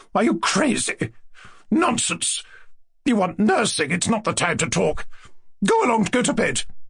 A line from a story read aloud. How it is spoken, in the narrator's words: Lizaveta Prokofievna cried in horror